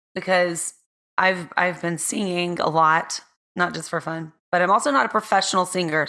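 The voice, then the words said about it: Hoarse voice. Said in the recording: “my voice is sounding a little hoarse”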